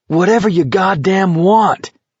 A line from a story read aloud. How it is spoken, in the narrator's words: Garrity yelled